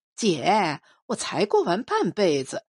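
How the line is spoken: Lonely smile. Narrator (Chinese): 孑然一笑，说

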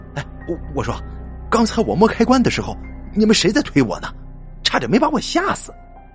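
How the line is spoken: Sudden exclamation. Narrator (Chinese): 猴子突然想起什么，叫了起来

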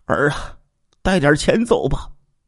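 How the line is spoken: Weeping. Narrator (Chinese): 王嘉林和妻子哭了起来，说

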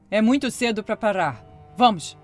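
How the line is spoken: Growling. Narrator (Portuguese): rosnou seu novo marido

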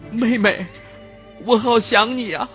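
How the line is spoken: Choked up, breaking off. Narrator (Chinese): 他说不下去了

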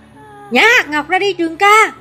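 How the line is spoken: Shouting. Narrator (Vietnamese): Tường Vi la lên

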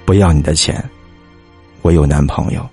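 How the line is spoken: Stubborn. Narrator (Chinese): 倔强的和男孩子说

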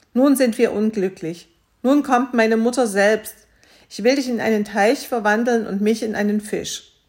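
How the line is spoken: Calling out. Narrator (German): die Königstochter rief

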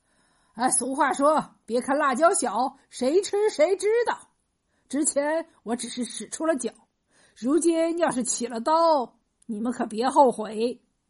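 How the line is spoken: Laughing heartily. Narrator (Chinese): 胡三哈哈大笑，回答说

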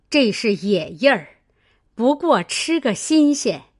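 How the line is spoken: Old woman laughing. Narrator (Chinese): 刘姥姥笑道

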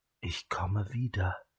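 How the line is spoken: Whispered into ear. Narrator (German): flüsterte sie Turi ins Ohr

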